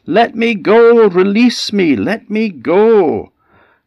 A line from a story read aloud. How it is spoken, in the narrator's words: the old man howled out of him